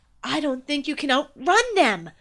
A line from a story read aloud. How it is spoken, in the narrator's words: yelled